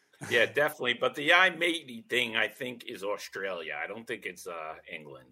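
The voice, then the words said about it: New Jersey / New York accent. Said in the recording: “I have a New Jersey, New York accent”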